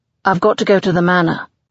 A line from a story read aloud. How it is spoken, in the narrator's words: he says sharply